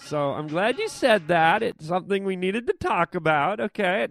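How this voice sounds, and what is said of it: Really annoying put-on voice. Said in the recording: “doing this really annoying voice? ... What part of that annoying voice do you understand?”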